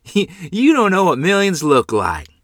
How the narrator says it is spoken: Phil said, laughingly

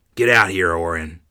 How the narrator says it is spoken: he growled, his voice low and foreboding

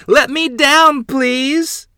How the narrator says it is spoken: Adeline's voice was a high squeak as he said

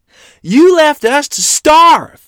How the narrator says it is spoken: Mother shrieked at him

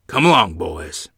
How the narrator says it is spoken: Grandfather said sternly

